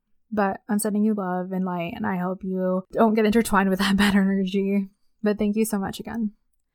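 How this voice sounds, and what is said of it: Strained, failing voice. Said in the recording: “I'm losing my voice.”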